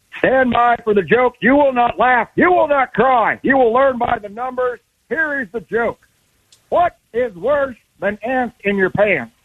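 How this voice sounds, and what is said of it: Barking drill sergeant voice. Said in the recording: “do your impression ... Sarge”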